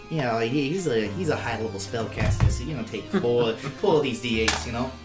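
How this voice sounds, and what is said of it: Unclear put-on accent. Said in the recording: “What is your accent right now?”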